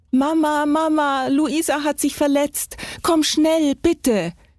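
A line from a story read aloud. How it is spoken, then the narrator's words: Screamed. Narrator (German): schrie er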